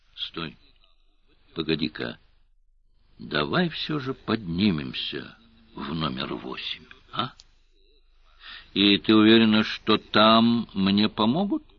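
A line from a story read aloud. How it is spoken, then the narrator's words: Ingratiating question. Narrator (Russian): вкрадчиво спросил Сварог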